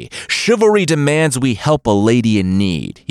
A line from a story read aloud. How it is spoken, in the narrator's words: he cried